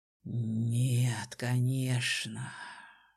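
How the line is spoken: Breathy exhale. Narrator (Russian): выдохнул он

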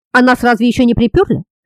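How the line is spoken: Grumbling. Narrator (Russian): заворчал Ангус, потирая ушибленное при падении бедро

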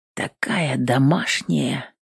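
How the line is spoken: Trembling whisper. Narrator (Russian): шепотом произнес, голос выдал охвативший его трепет

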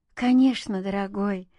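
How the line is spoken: Relieved sigh. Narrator (Russian): облегченно вздохнула Юля

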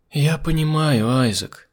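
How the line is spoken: Sigh. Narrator (Russian): вздохнула Дырхан

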